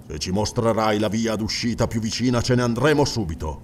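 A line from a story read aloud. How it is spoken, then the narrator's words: Grumbling. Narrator (Italian): brontolò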